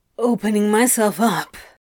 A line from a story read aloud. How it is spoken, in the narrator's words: he grunted